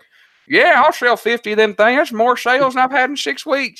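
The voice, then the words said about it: Put-on Southern US accent. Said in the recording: “You like my Southern accent?”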